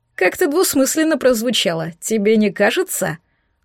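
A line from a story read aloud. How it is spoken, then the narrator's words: Chuckling. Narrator (Russian): хохотнул Пушистик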